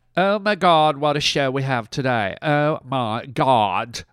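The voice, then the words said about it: Valley girl voice. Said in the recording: “Don't know why I'm talking like a valley girl”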